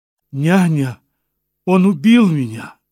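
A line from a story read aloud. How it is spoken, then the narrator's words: Sharp cry. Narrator (Russian): вскрикнула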